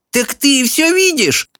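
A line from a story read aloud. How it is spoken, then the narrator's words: Exclamation. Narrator (Russian): воскликнула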